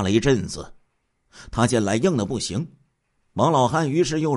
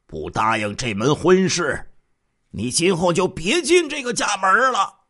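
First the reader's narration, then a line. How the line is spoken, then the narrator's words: Angry old man roaring. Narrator (Chinese): 王老汉这时候怒声吼道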